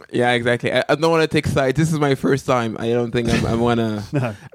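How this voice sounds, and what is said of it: Mixed French, British, American, Pidgin accent. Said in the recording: “it's a mix between, I think, French, British English, American English, and Pidgin English”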